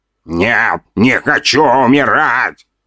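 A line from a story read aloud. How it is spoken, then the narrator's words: Mumbled. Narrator (Russian): пробормотал 2-метровый воин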